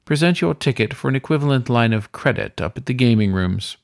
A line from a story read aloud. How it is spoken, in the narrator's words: the weasel said smoothly